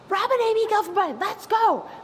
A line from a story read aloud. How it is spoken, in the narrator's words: I hear my dad scream from down the hall